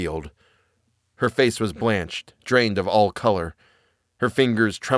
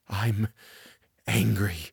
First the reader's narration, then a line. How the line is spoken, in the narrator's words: she whispered hoarsely